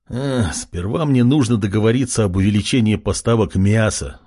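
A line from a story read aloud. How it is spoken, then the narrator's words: Sighing. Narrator (Russian): вздохнул якут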